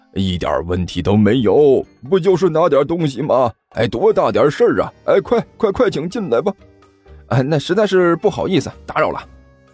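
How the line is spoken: Fawning, smiling. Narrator (Chinese): 满脸堆笑

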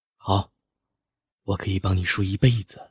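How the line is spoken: Soft, doting tone. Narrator (Chinese): 眼中满是宠溺和疼惜，柔声道

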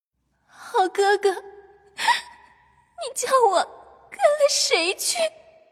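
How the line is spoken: Crying, angry and helpless. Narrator (Chinese): 黛玉越听越气，越没了主意，只得拉着宝玉哭道

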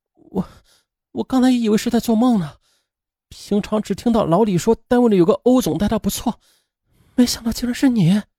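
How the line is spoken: Trembling, emotional voice. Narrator (Chinese): 王月的眼眶都红了，半晌，他才声音颤抖地说

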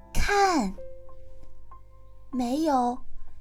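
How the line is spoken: Soft voice. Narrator (Chinese): 那个声音又轻轻地说道

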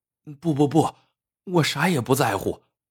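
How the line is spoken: Hurried. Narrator (Chinese): 阿成急忙说

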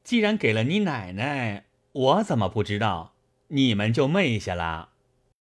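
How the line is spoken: Laughing. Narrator (Chinese): 贾琏 笑道

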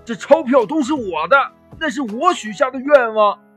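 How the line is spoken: Hoarse frantic yell. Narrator (Chinese): 牛老爸声嘶力竭地喊

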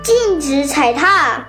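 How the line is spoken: Loud shout. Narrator (Chinese): 火帽子又大叫一声

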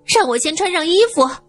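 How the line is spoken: Shouting. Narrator (Chinese): 她喊道

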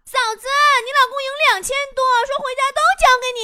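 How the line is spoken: Sudden loud shout. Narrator (Chinese): 这女同事突然对着我手机大喊

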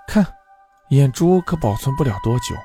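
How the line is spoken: Clicking tongue, sighing. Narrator (Chinese): 他啧啧叹道

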